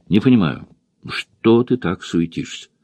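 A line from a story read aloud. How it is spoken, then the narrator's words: Quiet and irritated. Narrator (Russian): Джулия говорила тихо и раздраженно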